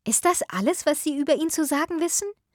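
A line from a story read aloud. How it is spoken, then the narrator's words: Indignant exclamation. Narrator (German): rief Marianne empört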